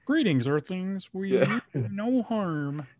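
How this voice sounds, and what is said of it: Kermit the Frog impression. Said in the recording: “read any of his lines in a Kermit the Frog voice ... That was a pretty good impression”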